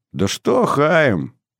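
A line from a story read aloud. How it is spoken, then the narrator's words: Glad grumbling. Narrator (Russian): проворчал Ицхак, радуясь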